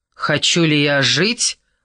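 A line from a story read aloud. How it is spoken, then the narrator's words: Scornful snort. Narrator (Russian): фыркнул Фавре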